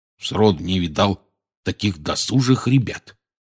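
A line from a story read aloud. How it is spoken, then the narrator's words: Muttering. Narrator (Russian): бурчал он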